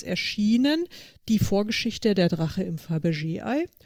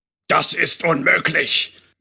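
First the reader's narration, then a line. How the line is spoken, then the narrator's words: Loud thundering male voice. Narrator (German): donnerte wieder die laute Männerstimme, die wohl dem obersten Wichtigtuer der Drachengilde oder wie sich die Typen auch nannten gehörte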